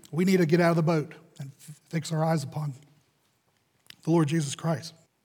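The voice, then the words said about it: Strained, fading hoarse voice. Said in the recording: “I'm losing my voice up here.”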